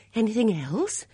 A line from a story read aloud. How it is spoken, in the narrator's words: she demanded anxiously